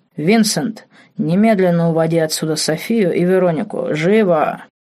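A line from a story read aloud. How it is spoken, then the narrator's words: Cold harsh growl. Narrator (Russian): Холодный, жесткий, рычащий голос скользнул по комнате ледяным дыханием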